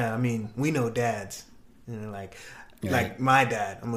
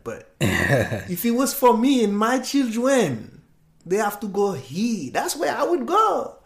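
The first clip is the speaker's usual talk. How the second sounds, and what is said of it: Imitates another person's voice. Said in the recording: “I'm going to do my dad impression real quick”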